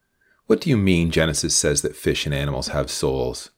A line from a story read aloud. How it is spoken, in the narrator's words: Mary asked in an amused voice